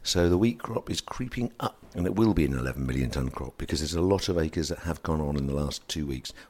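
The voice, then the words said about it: Tired, low-energy voice. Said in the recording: “if you can't tell from my voice that I've kind of probably peaked a bit early today, I'm not in the sharpest of moods”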